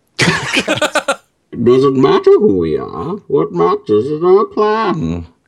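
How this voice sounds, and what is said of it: Bane impression, muffled through cup. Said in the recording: “cup voices... I want to do Bane... poor man's voice changer”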